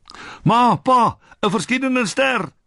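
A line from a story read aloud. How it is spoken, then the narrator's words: Shouting. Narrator (Afrikaans): skree Mawu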